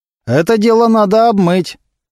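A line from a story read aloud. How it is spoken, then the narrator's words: Loud male voice. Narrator (Russian): громко сказал один из его поклонников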